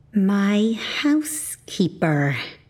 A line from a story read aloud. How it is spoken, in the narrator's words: I said through gritted teeth